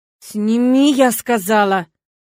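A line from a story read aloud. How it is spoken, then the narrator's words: Hissed through teeth. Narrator (Russian): процедила сквозь зубы ему в лицо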